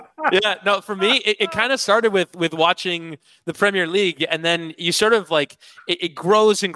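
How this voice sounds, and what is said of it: Usual voice. Nothing is said of it.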